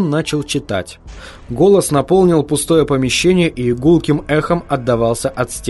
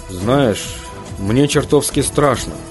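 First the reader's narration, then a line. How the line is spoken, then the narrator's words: Muttered. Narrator (Russian): пробормотал Хантон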